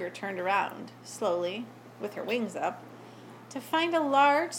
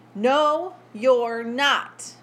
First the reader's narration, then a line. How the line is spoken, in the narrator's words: boomed the large chicken